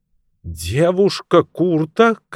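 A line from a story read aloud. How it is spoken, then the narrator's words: Shouted back, near tears. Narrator (Russian): крикнула Кортни в ответ, чуть не плача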